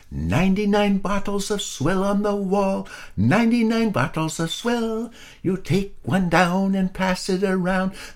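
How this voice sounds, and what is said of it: Squeaky little singing voice. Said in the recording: “in his squeaky little voice”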